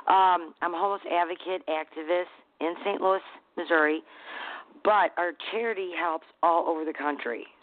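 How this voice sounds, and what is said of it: Hoarse voice from laryngitis. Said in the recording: “I have laryngitis again. I've had it for a year.”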